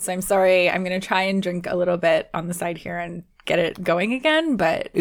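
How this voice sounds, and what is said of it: Worn-out, strained voice. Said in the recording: “you sounded like you were going to cry ... I am pretty much done in the voice department”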